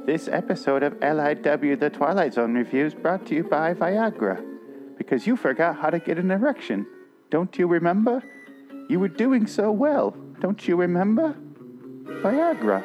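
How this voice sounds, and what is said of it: Imitates another person's voice. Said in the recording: “my Markey impression... it's more the pacing and the way she speaks more than matching the voice. It's the mannerisms.”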